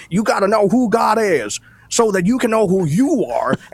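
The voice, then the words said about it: Put-on Southern preacher accent. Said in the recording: “pastors preach in a Southern accent ... this British Empire accent that you have to Billy Bob”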